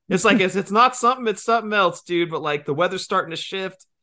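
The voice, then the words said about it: Slightly stuffy, congested voice. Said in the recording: “I am battling allergies this week ... I sound a little stuffy”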